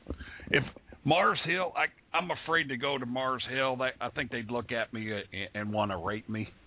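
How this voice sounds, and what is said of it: Kentucky-style Southern accent. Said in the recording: “You got that Claremont, Tucky accent.”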